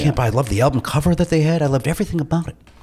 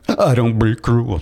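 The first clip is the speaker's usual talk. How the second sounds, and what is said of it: Imitates another person's voice. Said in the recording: “That's my Bobby Brown impression.”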